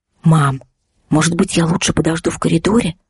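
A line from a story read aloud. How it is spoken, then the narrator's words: Whisper. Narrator (Russian): шепнула Ксюша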